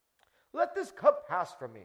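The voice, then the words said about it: Put-on English accent, pious tone. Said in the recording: “you have to say it with an English accent”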